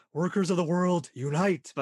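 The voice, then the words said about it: Imitated character voice, Cowardly Lion-like. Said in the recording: “whenever I try to imitate the Rom voice myself, I always end up kind of sounding like the Cowardly Lion ... I'm too Cowardly Lion ... more in the back of my throat and slow it down”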